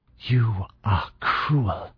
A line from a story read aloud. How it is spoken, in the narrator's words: she whispered